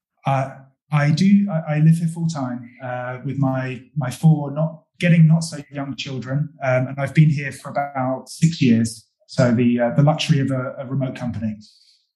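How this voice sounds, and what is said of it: English accent. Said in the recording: “my accent is English”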